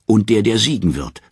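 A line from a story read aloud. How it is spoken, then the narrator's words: Furious scream. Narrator (German): schreit bleich vor Wut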